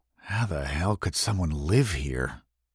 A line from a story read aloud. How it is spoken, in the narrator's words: Jim mumbled